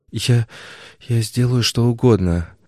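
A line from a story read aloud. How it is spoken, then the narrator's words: Forced, strained words. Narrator (Russian): выдавила она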